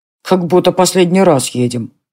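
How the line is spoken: Grumbling mutter. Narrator (Russian): пробурчал Колин

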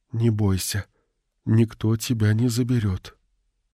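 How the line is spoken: Whisper. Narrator (Russian): шепнула

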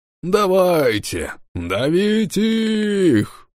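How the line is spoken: Cheerful shout. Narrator (Russian): Весело закричал волосатый боцман тяжелого галеона

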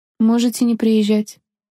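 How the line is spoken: Pointedly calm, suppressed anger. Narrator (Russian): наконец подчеркнуто спокойно сказала она, хотя внутри все кипело от гнева

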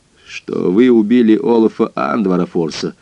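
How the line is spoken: Grim. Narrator (Russian): мрачно сказал я

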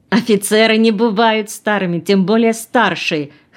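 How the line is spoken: Laughing loudly. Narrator (Russian): хохотала она

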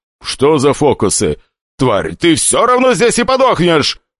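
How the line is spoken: Shouted. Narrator (Russian): Прокричав это

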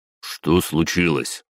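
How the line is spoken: Stern question. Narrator (Russian): строго спросил, не получив ответ от пельменя

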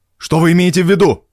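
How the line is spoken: Barking. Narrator (Russian): Рявкнул я

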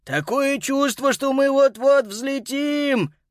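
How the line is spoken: Hoarse wheeze. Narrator (Russian): прохрипел Боб

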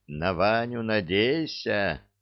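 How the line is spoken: Thoughtful drawl. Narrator (Russian): задумчиво протянула Василиса

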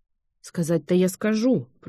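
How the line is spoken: Grumbling. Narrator (Russian): проворчала

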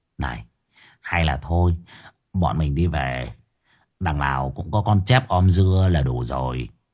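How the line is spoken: Nervous whisper. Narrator (Vietnamese): hơi hốt, cậu thì thầm

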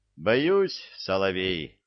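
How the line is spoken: Laughing. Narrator (Russian): засмеялся Илья

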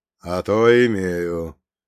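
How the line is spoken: Grumbled. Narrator (Russian): буркнул священник

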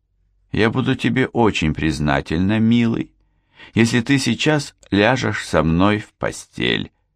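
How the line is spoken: Flat even tone. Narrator (Russian): ровным тоном произнесла Барбара

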